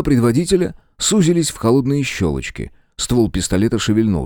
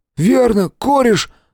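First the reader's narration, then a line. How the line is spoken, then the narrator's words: Trembling voice. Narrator (Russian): дрожащим голосом подхватил Том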